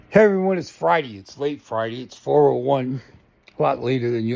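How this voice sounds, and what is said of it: Out of breath, panting speech. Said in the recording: “Sorry, I'm out of breath. Came up the stairs too fast.”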